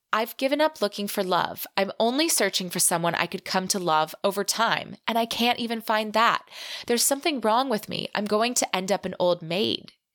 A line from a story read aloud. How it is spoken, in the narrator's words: Cassandra said